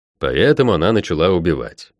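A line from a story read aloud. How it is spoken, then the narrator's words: Wry snort. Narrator (Russian): хмыкнул я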